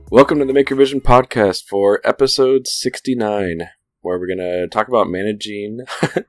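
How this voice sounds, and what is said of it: Radio DJ announcer voice. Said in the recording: “It's your radio DJ voice that I'm laughing at ... Sound so different ... it just sounds like you've changed your tone completely”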